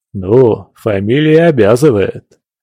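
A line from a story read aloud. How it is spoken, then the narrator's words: Relaxed laugh. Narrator (Russian): расслабившись, рассмеялся компаньон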